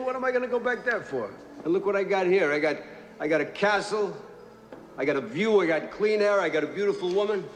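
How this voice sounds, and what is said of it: Boston accent. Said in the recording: “his Boston accent”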